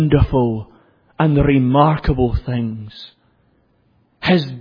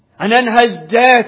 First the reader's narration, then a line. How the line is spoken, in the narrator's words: he cries triumphantly